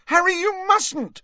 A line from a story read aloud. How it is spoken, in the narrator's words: shrieked Hermione